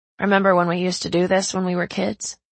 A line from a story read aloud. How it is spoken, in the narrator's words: I asked